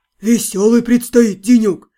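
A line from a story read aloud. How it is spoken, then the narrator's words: Grumbling mutter. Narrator (Russian): пробурчал Янор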